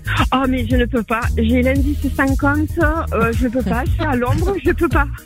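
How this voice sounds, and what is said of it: English accent speaking French. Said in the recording (French): “on entend bien l'accent anglais, là ... ça ne va pas du tout avec l'accent”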